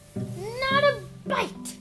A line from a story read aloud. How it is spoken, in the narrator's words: snapped